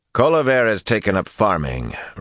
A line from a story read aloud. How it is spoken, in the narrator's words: Rand growled